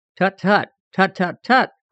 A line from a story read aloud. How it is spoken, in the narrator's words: cried a rather sharp scolding voice